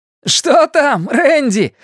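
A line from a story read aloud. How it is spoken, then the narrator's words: Brave man shouting. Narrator (Russian): закричал смельчак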